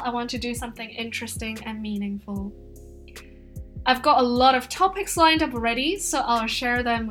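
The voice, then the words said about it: Mixed American-British English accent. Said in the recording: “I tend to have a mixed accent. Some of my colleagues told me I have an American accent, while some told me I have a British accent.”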